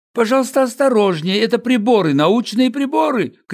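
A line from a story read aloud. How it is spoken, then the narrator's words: Shouting. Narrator (Russian): кричал он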